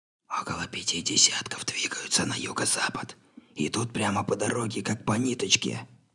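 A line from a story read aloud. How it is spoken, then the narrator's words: Whisper. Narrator (Russian): прошептал Атчесон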